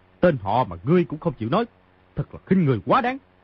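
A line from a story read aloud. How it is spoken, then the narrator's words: Angry. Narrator (Vietnamese): Mao Thập Bát tức giận nói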